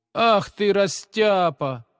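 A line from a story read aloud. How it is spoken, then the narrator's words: Mocking jibe. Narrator (Russian): насмешливо поддел его двоечник Витя, который не выносил отличников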